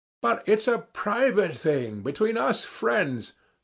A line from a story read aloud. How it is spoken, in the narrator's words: Ferfitchkin said crossly